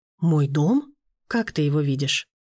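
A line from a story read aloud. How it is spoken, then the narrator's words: Calm question. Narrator (Russian): спокойно спросил Данияр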